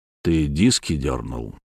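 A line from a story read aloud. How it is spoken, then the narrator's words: Quiet, private. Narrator (Russian): сказал я, тихо, чтобы слышали только мы двое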